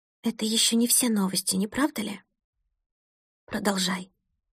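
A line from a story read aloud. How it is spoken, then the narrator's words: Hollow, strange voice. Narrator (Russian): произнесла она глухим, незнакомым голосом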